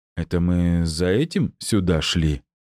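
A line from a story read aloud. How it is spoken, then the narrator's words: Disappointed drawl. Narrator (Russian): разочарованно протянул Джулиан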